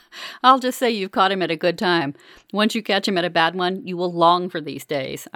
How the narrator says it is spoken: I laugh

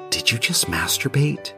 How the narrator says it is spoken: He whispered

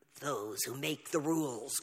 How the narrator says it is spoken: growled Pushkin

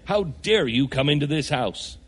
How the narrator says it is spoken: Anne bristles, declaring crossly

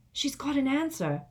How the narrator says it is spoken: said Ron excitedly

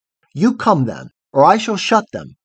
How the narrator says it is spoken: said Nycteris

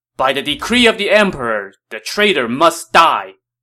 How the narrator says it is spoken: Li Bu shouted

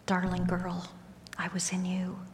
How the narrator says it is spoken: Ever so gently, I heard his voice

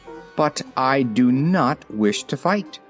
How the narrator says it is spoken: declared Ozma firmly

